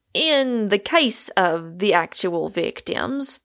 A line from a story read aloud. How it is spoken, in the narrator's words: said Pym